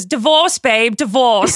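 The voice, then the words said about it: Poor put-on British accent. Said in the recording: “my shitty ass British accent”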